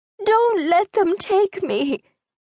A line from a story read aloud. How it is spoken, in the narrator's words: the older woman begged